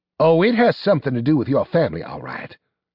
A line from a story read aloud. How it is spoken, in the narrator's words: snapped Pasteur